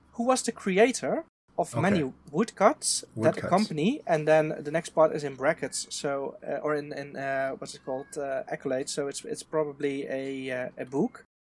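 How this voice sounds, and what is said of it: Strong Dutch accent. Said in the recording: “overly Dutch ... Accent.”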